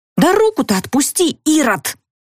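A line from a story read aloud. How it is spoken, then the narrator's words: Fervent whisper. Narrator (Russian): зашептала горячо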